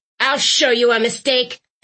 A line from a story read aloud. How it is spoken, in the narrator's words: Thistle bellowed